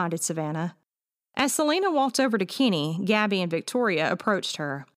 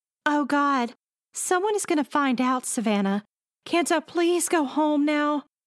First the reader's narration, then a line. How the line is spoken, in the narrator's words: begged Selena